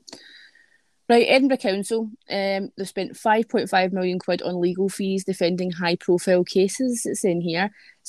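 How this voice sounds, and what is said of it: Strong regional accent. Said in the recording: “making fun of our accents ... make fun of my accent”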